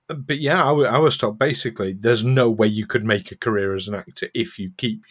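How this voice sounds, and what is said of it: Very soft Yorkshire accent. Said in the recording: “the softest of soft Yorkshire accents. I was never able to lose it completely”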